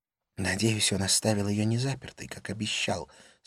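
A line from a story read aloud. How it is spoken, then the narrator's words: Whispered. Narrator (Russian): сказала она шепотом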